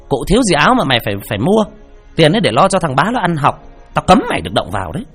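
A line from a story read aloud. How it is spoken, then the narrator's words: Shrill scolding from outside. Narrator (Vietnamese): Mụ Diễm nghe vậy liền từ bên ngoài quát the thé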